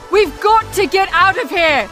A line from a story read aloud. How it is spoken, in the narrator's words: Ari shouted at him